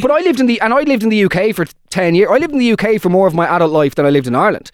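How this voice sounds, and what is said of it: Posh-sounding Irish accent. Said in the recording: “how posh you are ... It's the accent ... I think it's the accent”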